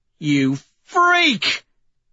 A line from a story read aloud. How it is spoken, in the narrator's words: Severo shrieks